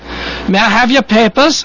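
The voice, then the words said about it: Put-on foreign accent. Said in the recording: “I got that accent right.”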